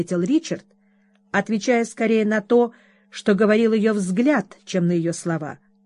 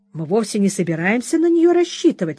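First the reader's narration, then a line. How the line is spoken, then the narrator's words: Cheerful exclamation. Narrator (Russian): весело воскликнул Ричард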